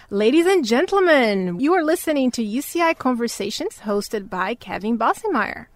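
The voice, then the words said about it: Radio DJ announcer voice. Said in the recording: “my like my radio voice, my DJ voice.”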